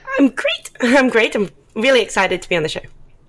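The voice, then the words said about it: Australian accent. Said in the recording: “I'm sure people can probably guess from your accent, live from Australia”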